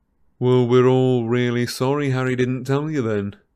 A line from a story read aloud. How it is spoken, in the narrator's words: said Fred loudly